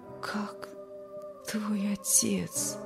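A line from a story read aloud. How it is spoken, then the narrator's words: Barely audible, exhausted. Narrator (Russian): спросил еле слышно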